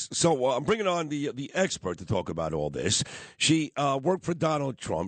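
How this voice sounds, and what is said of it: Sick, under-the-weather voice. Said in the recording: “I'm a little under the weather, so that's why my voice sounds this way.”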